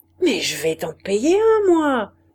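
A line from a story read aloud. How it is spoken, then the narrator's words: Shouting. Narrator (French): cria-t-il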